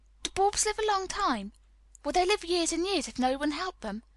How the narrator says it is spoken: inquired Mary anxiously

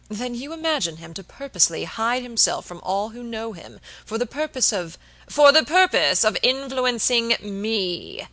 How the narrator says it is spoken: exclaimed Mr

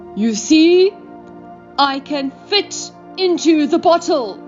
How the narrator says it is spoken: from inside it shouted

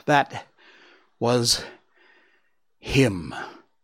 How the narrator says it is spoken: His mother gasped for breath and answered

